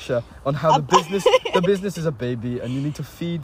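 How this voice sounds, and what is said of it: Usual voice. Nothing is said of it.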